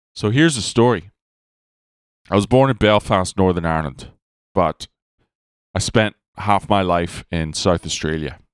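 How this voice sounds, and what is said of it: Mixed accent, vaguely Irish. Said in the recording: “my weird-ass accent that sounds vaguely Irish, but otherwise just confusing”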